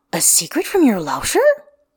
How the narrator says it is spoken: He gasps

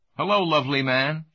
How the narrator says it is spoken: she cried

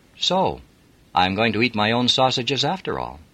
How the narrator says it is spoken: She laughed and said

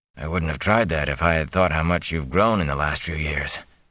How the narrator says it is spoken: Tam said softly

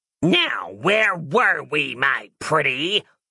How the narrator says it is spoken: the thing snarled

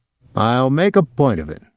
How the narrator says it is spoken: Willie said

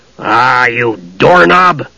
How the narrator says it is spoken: Flint said gruffly

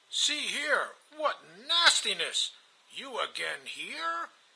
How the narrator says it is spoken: Ivan exclaimed

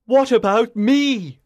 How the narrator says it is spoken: cried in desperation

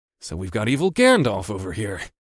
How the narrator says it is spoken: muttered

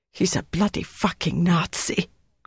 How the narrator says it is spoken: Greta gasped

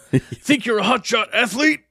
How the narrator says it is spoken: It says, shouts

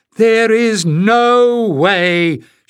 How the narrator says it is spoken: shouted Pen, eyes blazing

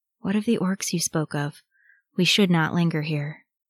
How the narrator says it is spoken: Boromir said in an undertone

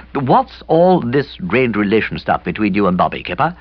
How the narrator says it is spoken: I said

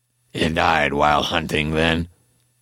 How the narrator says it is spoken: Slav Samas rumbled in a thick voice I struggled to understand

